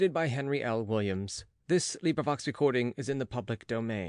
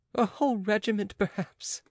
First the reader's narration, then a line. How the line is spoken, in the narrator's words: said Oliva, laughing